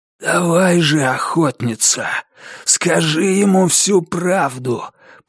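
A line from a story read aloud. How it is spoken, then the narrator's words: Hoarse rasp. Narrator (Russian): прохрипел маркиз Карабас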